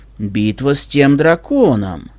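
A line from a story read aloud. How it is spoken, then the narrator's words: Stunned slow mumble. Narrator (Russian): Ошеломленный купец медленно пробормотал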